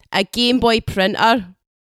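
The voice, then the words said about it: Put-on Scottish accent. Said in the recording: “That's me trying to do a Scottish accent. ... You're the best ever Scottish impersonator, the best English Scottish impersonator”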